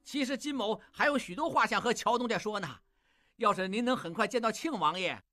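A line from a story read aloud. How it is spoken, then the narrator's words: Loud over train whistle. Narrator (Chinese): 火车鸣笛，金勇大声说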